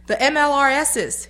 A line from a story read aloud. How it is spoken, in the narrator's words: he yelled